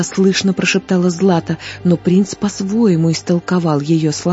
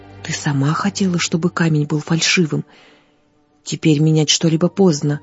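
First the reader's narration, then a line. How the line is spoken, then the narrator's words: Quiet, barely hidden irritation. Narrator (Russian): тихо проговорил он, не в силах скрыть раздражение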